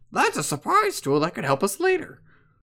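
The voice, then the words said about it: Mickey Mouse impression. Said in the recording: “in the words of Mickey Mouse ... That's pretty good ... I thought it was really bad ... That was pretty bad ... Hey, it wasn't British”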